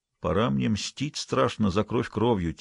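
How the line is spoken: Quiet grumble. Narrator (Russian): тихо буркнул Туром

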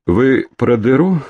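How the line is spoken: Calm inquiry. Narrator (Russian): спокойно осведомился шакал

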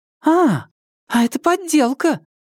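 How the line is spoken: Sudden exclamation. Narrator (Russian): Тан Сяо Тан вдруг воскликнула

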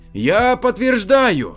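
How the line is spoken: Shouting. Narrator (Russian): закричал появившийся в зале Петрищенко

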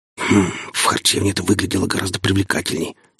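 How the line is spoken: Whisper in ear. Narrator (Russian): шепнул он на ухо стоящей рядом Арине

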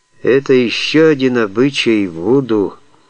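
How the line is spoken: Gloomy reply. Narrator (Russian): мрачно ответил Джон Райли

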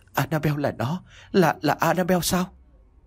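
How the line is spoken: Stunned, terrified stammer. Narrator (Vietnamese): sững sờ và kinh hãi miệng lắp bắp

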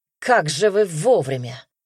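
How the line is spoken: Wry grunt. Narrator (Russian): хмыкнул

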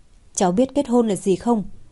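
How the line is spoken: Laughing. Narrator (Vietnamese): Cố Chi Dân bật cười

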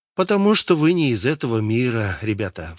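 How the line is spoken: Sighing. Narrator (Russian): вздохнул Вильям

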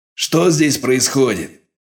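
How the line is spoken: Commanding bark. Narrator (Russian): властно рявкнули от входа

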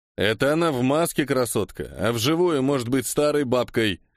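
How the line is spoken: Laughing. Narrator (Russian): хохотнул Андрей Панч

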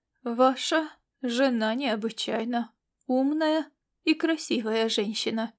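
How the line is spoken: Measured tone. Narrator (Russian): добавил он уже более взвешенным тоном

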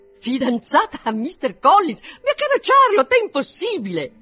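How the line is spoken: Astonished, unrestrained exclamation. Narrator (Italian): Tale fu dunque il suo stupore da superare a tutta prima i limiti della convenienza, così che non poté trattenersi dall'esclamare

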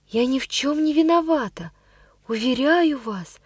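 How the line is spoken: Quiet. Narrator (Russian): произнесла я тихо

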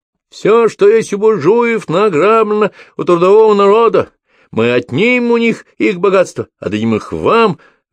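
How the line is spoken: Orator shouting. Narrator (Russian): выкрикнул трибун

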